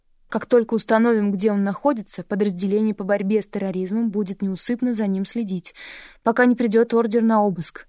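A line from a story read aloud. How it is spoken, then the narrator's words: Plain. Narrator (Russian): ответил Бакстон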